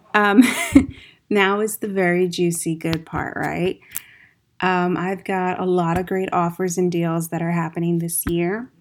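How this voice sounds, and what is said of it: Slightly tired voice. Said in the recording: “my voice is a little tired”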